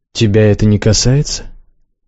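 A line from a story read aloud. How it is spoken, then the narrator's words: Dry question. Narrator (Russian): сухо спросил Развияр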